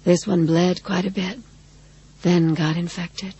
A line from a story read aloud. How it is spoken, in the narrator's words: she said in her sweetly husky voice